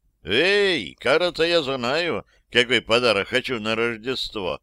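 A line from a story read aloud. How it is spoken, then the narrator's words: Cheerful shout. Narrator (Russian): весело крикнул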